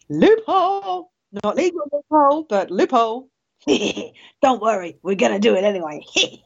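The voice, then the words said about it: Imitates another person's voice. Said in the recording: “my very, very, very bad Bush impression”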